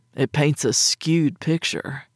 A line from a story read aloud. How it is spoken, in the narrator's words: he muttered